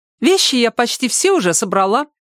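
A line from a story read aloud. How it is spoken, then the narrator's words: Cheerful, over the phone. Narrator (Russian): весело сообщила Ирка в мобильный телефон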